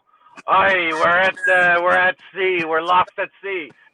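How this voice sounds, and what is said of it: Put-on pirate accent. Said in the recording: “you don't want to come up and join the scene without a pirate accent ... your best fucking pirate voice possible”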